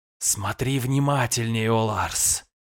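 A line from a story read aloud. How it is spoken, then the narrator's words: Rustling whisper. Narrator (Russian): прошелестел шепот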